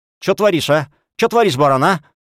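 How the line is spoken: Shrill muttering. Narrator (Russian): визгливо приговаривая

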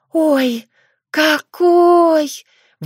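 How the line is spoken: Breathed out. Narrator (Russian): выдохнула Дарья

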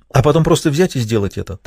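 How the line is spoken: Hurried. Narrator (Russian): торопливо закончила Дженни

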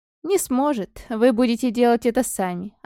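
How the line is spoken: Plain. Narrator (Russian): ответил дух

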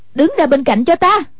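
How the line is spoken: Exasperated shout. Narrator (Vietnamese): Hoàng Dung nghe thấy không chịu nổi, quát lên

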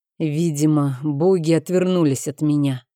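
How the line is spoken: Hoarse. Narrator (Russian): продолжал хрипло

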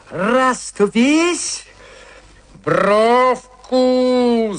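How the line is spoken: Shouting. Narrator (Russian): закричал я

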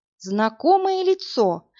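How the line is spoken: Uncertain. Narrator (Russian): неуверенно сказала Марина

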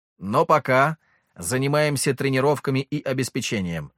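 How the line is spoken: Plain. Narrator (Russian): ответил я

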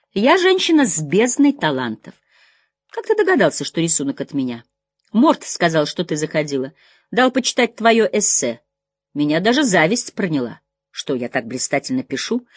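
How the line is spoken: Laughing. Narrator (Russian): Мак рассмеялся

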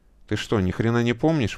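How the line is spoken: Gloomy question. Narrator (Russian): мрачно спросил Слава

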